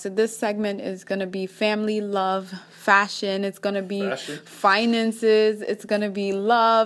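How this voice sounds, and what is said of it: Kenyan accent. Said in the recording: “I'm from Kenya, so I still have that accent. Of like Kenyan, and I'm sure most of you guys can pick it up when I talk sometimes”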